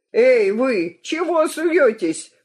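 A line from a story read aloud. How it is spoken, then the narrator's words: Yelling. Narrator (Russian): вопит комиссар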